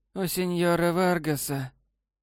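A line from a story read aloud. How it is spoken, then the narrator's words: Husky low female voice. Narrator (Russian): хриплым низким голосом сказала незнакомка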